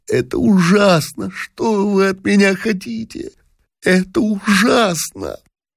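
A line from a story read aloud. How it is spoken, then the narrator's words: Sobbing, sighing repetition. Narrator (Russian): юноши, вздыхая, всхлипывая и повторяя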